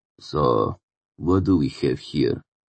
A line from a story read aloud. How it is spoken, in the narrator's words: the fourth guard said hoarsely